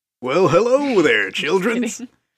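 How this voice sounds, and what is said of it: Fake radio announcer voice. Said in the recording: “throw on a fake radio voice because it's fun”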